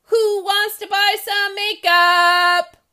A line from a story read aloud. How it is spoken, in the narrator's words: Julie yelled